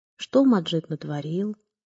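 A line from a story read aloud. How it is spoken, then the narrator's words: Quiet question. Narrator (Russian): спросил тихо Карим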